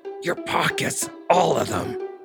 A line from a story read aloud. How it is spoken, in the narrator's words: he growled